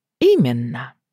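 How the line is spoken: Calm. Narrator (Russian): спокойно отозвалась та

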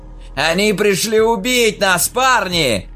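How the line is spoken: Shouted. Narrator (Russian): крикнул Хоук

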